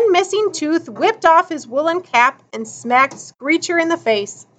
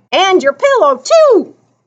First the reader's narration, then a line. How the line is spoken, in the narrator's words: screeched